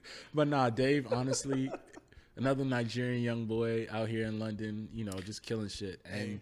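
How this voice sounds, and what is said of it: Usual voice. Nothing is said of it.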